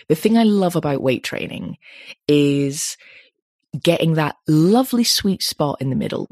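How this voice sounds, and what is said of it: Excited, enthusiastic tone. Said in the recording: “You can tell I get excited about this. I've got my excited tone of voice.”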